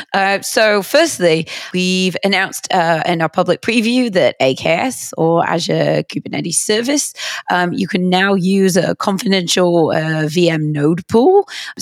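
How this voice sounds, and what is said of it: Slightly hoarse voice. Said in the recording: “Hopefully everyone can understand my voice. I'm still a little bit hoarse from coming back from Hacker Summer Camp.”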